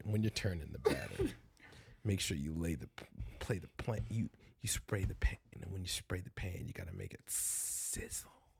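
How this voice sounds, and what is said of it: Exaggerated deep sultry voice. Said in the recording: “deep voice ... What's with the deep voice talking shit?”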